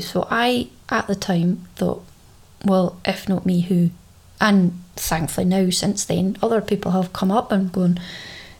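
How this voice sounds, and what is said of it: Scottish Caithness accent. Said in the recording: “Not many people hear a Caithness accent ... I like to think you heard my accent”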